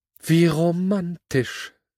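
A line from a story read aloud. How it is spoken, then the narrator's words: Sigh. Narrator (German): seufzte Sandy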